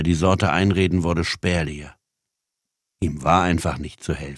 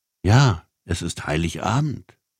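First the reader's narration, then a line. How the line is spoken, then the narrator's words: Plain. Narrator (German): sagte die Frau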